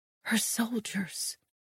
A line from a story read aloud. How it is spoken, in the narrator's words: I whispered